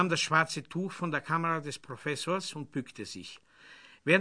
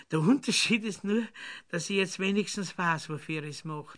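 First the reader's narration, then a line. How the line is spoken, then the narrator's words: Laughing. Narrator (German): lachte sie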